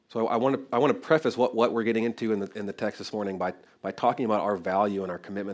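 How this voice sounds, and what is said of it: Voice affected by a cold. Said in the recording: “I'm just getting over a cold, if you can't tell in my voice.”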